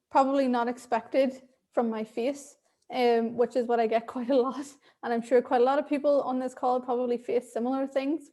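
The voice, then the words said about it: Thick Irish accent. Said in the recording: “I'm Irish, so I have an Irish accent. ... I have this lovely thick accent now that I will never get rid of.”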